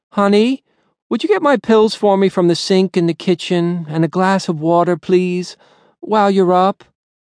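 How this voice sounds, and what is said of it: Dragged-out tired invalid voice. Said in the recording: “She called him Honey in her invalid voice if she wanted something ... Dragging it out in this tired voice”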